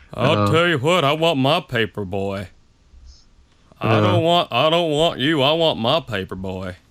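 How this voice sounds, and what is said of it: Hank Hill cartoon character impression. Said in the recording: “best Hank Hill impression”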